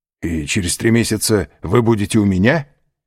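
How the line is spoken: Joyful exclamation. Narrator (Russian): радостно воскликнул Альбер

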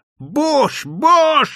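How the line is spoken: Spluttering frenzied screech. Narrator (Russian): вопила она, плюясь и захлебываясь слюной

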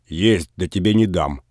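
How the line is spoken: Spiteful, angry reply. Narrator (Russian): злобно ответил Передонов

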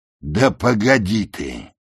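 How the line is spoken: Grumbling. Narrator (Russian): проворчал Бун

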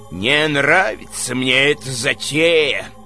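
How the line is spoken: Grumbled. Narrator (Russian): пробурчал Близнецов

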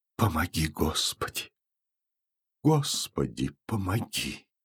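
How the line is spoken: Repeated whispering. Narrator (Russian): Платонида Ивановна шепотом повторяя

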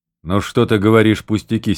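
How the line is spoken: Angry interruption. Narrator (Russian): сердито перебил Калугин

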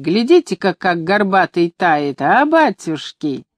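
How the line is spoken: Laughing women calling out. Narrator (Russian): бабы смеялись над ним, покрикивая одна другой

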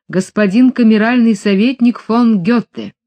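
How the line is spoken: Confident proclamation. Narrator (Russian): Уверенным голосом он провозгласил

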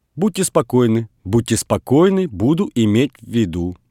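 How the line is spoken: Fast speech. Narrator (Russian): быстро говорил Кириллов

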